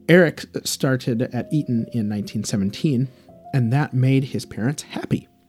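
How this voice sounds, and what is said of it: Non-English accent. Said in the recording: “I'm not English, as you can tell from my accent”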